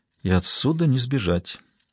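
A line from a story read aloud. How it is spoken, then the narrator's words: Quiet remark. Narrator (Russian): тихо заметила она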